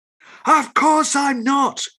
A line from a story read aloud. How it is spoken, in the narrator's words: cried Shelley